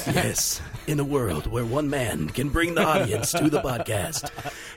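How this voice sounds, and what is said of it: Movie trailer announcer voice. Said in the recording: “trailer voice”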